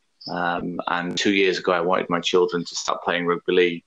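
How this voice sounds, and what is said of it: English accent. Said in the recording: “an Englishman like yourself, judging by the accent”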